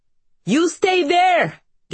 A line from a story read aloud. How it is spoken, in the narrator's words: Genek shouts